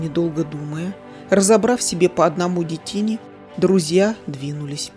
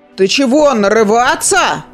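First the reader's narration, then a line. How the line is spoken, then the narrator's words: Big man roaring. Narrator (Russian): проревел детина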